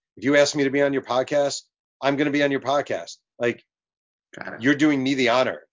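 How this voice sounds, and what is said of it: Hoarse, worn-out voice. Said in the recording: “I'm exhausted. My throat is gone. My voice is gone.”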